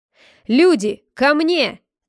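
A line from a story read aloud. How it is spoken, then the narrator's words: Shouting. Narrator (Russian): кричал стражник, упавший с белой кобылы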